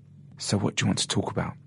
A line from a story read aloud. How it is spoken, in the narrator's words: whispered Richard